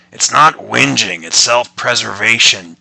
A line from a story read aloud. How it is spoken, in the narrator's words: John grumbled